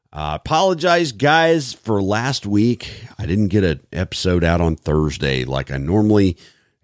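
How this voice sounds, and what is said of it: Hoarse, recovering voice. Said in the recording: “I lost my voice ... as you can tell, I'm still kind of regaining it”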